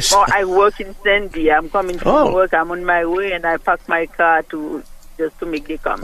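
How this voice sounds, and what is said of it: Caller with a noticeable accent. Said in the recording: “Love your accent.”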